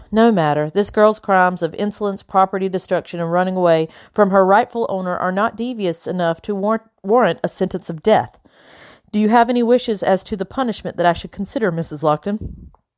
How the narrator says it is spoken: Madam sighed deeply, like my behavior caused her great sadness

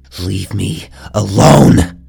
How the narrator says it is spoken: Ezra spat, saliva flying from his mouth

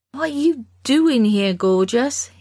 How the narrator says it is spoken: asked

